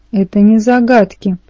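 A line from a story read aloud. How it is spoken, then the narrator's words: Shout. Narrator (Russian): выкрикнула Аннабет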